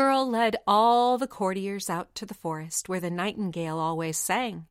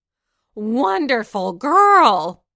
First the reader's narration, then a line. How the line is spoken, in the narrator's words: cried the knight